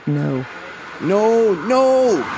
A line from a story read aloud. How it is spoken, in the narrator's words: The guy in front of me just screamed